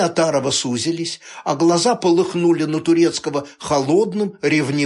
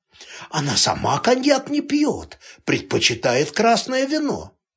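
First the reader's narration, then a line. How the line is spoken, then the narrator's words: Clowning whisper behind hand. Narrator (Russian): прикрыл рот ребром ладони и прошептал, явно поясничая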